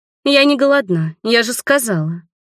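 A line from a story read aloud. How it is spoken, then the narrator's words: Young woman snorting irritably. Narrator (Russian): фыркнула девушка Сэму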